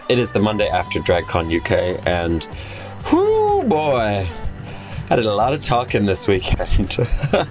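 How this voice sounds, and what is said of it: Strained, worn-out voice. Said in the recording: “my voice is suffering”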